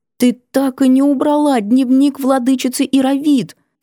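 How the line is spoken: Reproachful exclamation. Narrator (Russian): С осуждением воскликнула она

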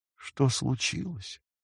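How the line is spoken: Barely audible. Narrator (Russian): Джулия смогла еле слышно произнести

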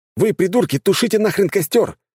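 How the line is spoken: Shouting. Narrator (Russian): крикнул Роман

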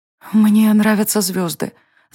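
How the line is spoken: Enchanted whisper. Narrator (Russian): зачарованно прошептала Варвара в ответ

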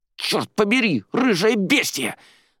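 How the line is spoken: Angry hiss. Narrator (Russian): зашипела на нее Арадия

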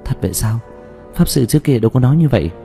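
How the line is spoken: Shocked, disbelieving mutter. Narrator (Vietnamese): kinh hãi, đến cả Dương Tư Linh cũng có chút không tin được, lẩm bẩm

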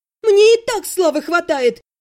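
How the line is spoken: Shouting. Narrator (Russian): закричала я

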